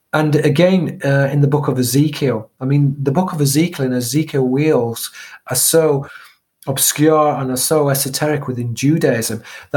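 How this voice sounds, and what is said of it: Strained, fading, hoarse voice. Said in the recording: “I'm losing my voice. ... A lot of talking.”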